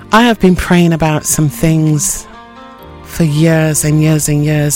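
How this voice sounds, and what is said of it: Voice sounds a little low. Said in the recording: “My voice sounds a little bit low”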